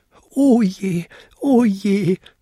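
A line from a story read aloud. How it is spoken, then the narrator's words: Wailing lament. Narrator (German): jammerte er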